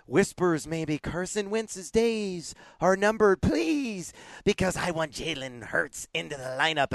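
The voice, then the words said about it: Whispery little wizard voice. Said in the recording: “I don't know why I'm talking like a little wizard”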